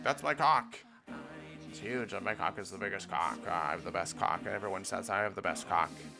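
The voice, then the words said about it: Imitates another person's voice. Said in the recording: “that was a really bad impression of Donald Trump”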